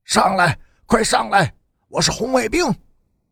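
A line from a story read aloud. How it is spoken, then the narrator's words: Shouting while running. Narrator (Chinese): 一边跑着，陈诚一边高声的喊着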